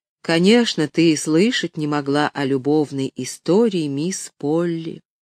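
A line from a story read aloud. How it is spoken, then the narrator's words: Slow speech. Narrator (Russian): медленно проговорил он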